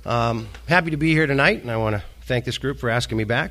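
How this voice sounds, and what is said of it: Slightly breathless voice with a cold. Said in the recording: “I have a cold ... So if I seem a little out of breath”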